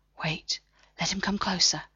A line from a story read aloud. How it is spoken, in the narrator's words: he whispered